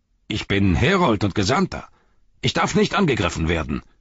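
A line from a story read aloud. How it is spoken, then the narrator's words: Called out. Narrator (German): rief er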